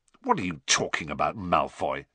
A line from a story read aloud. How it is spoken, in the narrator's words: said Ron, roughly